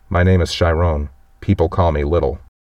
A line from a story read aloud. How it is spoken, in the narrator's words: the kid speaks up in a timid voice and says